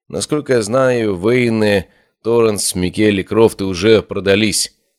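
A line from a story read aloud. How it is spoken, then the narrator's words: Gloomy reply. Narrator (Russian): мрачно ответил Бартоломей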